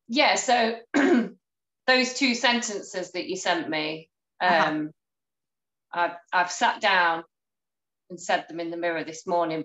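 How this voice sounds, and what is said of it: Hoarse, croaky throat. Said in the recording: “I've got a frog in my throat.”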